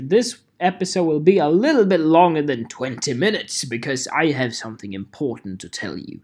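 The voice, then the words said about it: Put-on British accent. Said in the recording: “when I speak in British accent.”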